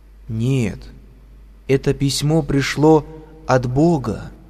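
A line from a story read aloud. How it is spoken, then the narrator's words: Slow and serious. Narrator (Russian): медленно и серьезно произнесла Ксения Семеновна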